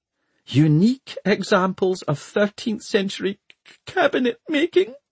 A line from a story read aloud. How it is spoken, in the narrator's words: wailed Miss Plym